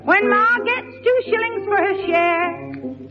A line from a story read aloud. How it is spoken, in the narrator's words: she shouts, feeling like a millionaire